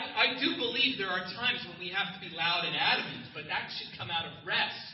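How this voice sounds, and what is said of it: Usual voice. Nothing is said of it.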